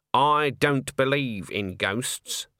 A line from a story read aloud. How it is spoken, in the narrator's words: said Granny firmly